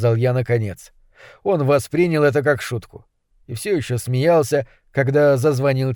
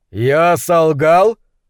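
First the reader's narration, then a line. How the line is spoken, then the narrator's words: Loud laughter. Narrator (Russian): расхохотался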